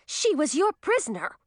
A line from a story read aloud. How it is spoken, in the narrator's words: cried Zoe